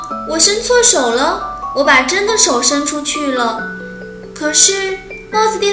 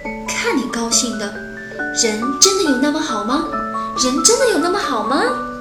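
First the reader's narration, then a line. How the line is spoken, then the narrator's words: Asking herself. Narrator (Chinese): 妈妈一直这样在问着自己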